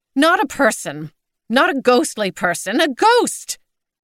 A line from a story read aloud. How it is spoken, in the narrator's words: cried Maud